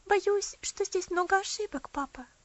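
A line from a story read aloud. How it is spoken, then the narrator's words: Timid. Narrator (Russian): робко произнесла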